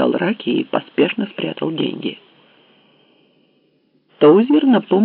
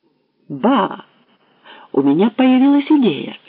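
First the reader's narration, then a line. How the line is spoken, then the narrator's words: Excited. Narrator (Russian): сказал Фуллет взволнованно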